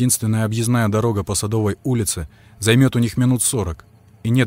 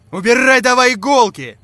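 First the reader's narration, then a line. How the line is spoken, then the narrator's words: Yelled. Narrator (Russian): заорал Витька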